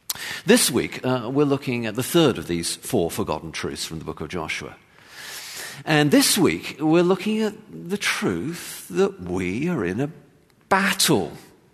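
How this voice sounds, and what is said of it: English accent. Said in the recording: “I have an English accent, and I say my T's differently from Americans”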